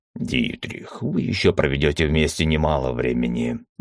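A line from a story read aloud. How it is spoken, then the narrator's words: Pleased snort from behind. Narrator (Russian): довольно хмыкнул Уталак за моей спиной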